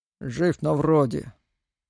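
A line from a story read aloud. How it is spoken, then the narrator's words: Gloomy reply. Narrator (Russian): мрачно раздалось в ответ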